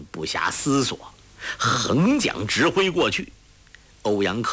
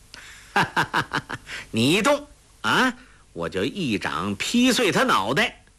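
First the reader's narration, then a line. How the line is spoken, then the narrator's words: Laughing. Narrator (Chinese): 欧阳克笑道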